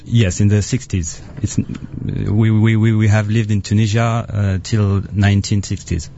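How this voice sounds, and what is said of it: Foreign accent. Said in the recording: “don't you love the accent? ... I'm sorry for my accent.”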